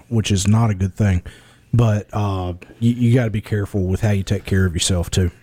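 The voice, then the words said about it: Worn-out, nearly lost voice. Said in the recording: “You can hear my voice is about gone”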